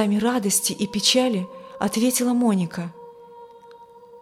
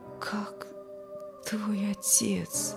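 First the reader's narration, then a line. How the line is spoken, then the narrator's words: Barely audible question. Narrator (Russian): спросил еле слышно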